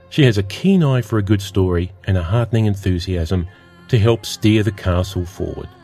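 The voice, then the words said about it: Unusual accent. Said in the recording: “my odd accent”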